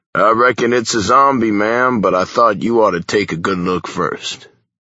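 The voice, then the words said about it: Put-on Texan Western drawl. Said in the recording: “dipping down into my childhood accent, added to a bit by Hollywood Westerns ... my little Texas bunny”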